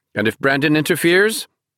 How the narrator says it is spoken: Pena asked sharply

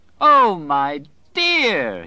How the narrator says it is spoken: he cried, and went off into another gale of laughter

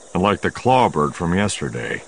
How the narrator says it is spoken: Solo agreed grimly

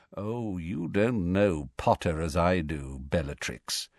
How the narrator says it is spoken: said Malfoy softly

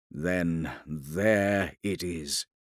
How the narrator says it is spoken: said Arvida quietly

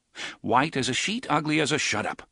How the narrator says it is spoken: Roland said curtly

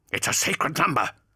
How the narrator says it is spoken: hissed Targost, fighting to keep the blade from reaching his neck

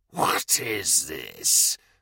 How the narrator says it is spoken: the Lieutenant Commander hissed

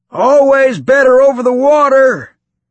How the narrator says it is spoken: he shouted in his gruff voice, against the wind and the noise of the speeder

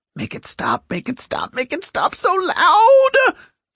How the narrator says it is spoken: Cost wailed

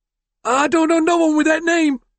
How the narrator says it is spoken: the fat man pleaded, sweat beading his forehead

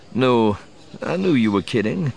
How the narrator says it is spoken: said, chuckling

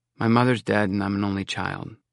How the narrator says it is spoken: I said sulkily

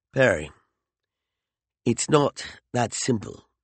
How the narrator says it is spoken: he said gently

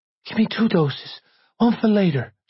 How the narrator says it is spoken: panted

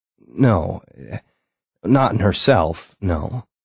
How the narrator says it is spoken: a thought hit me, and I stammered out

